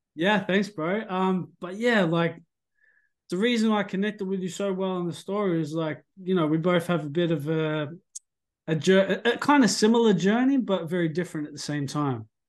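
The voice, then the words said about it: Australian accent with Samoan twang. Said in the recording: “your New Zealand accent ... I'm actually Australian ... I grew up with Samoans, so there's a bit of a tinge sometimes ... definitely a bit of a twang to it that I mistook for South African”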